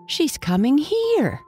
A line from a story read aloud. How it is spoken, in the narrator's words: the brown pigs cried